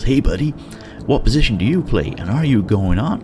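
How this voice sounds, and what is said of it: Put-on American Wyoming accent. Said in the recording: “I will try the accent. ... That was my best Wyoming accent.”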